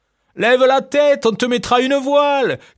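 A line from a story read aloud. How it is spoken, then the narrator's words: Dog's would-be witty shout. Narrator (French): cria le chien de la ferme qui se croyait spirituel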